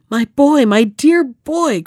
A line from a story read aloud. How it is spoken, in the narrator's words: cried the king